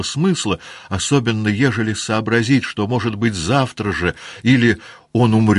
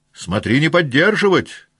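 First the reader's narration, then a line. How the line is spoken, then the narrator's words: Shout. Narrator (Russian): кричал другой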